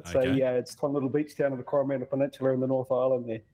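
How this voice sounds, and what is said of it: Slight New Zealand accent. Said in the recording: “I'm detecting a wee bit of an accent ... I am originally from New Zealand”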